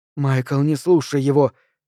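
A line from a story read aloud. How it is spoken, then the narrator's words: Quiet. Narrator (Russian): тихо говорит Люси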